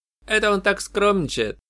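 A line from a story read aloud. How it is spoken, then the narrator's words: Cheerful chuckle. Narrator (Russian): весело хохотнул Шун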